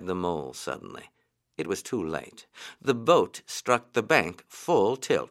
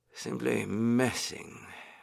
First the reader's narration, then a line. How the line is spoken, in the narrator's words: he went on dreamily